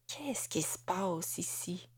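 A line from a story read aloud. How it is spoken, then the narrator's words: Murmuring to herself. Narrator (French): murmura Amélie, plus à elle-même qu'à son mari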